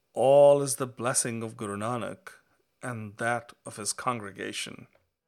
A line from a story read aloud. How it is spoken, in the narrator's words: simply said